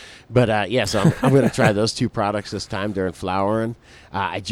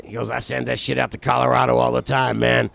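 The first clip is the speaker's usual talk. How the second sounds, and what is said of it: Imitates another person's voice. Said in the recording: “my best imitation of this guy”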